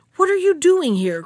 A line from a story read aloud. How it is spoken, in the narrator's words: cried the bear